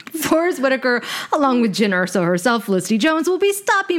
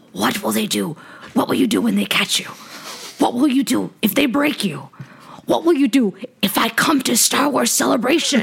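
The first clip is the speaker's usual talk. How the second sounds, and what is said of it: Imitates a film character's voice. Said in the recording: “my Saw Gerrera impersonation. ... I can't love do it. I try. ... you had a nice rhythm going”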